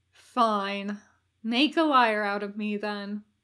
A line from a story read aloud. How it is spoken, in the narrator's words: the demon sighed